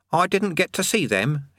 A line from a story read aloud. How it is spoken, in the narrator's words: he added sulkily